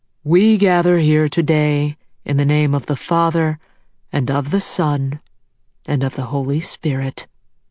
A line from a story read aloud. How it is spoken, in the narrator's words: Father Ott proclaims in his resonant voice